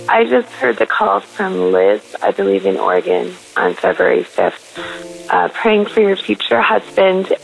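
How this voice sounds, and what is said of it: Croaky voice. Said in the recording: “my voice is a bit croaky today, so hopefully it's clear enough”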